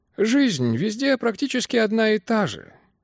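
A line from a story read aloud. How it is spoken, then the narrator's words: Tired voice. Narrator (Russian): сказал он утомленным голосом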